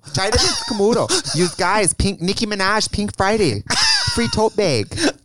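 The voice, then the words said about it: Exaggerated strong Wisconsin accent. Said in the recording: “If you think my accent is strong, it's full Wisconsin.”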